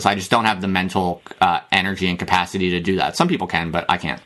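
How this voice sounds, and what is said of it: American accent. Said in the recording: “you sound American”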